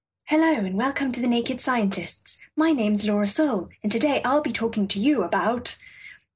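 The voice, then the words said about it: Gentle, proper BBC radio voice. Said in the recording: “I accidentally had a radio voice ... So I sound like, I don't know, story time from the 1930s. ... You sounded proper BBC. ... too gentle.”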